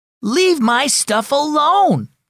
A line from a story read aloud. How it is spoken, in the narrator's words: Elijah shouted at his younger brother